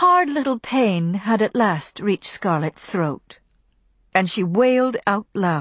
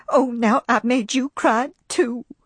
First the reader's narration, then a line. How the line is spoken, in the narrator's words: sobbed Pitty-Pat, in a pleased way